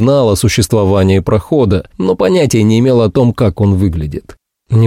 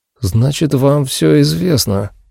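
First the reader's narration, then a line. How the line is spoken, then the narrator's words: Muttered. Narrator (Russian): пробормотал Вольферт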